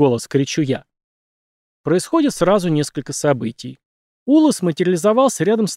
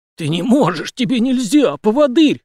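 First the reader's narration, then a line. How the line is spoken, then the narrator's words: Hoarse rasp. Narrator (Russian): хрипит наемник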